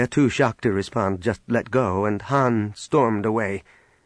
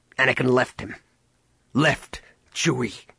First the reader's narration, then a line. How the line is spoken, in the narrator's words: Han spat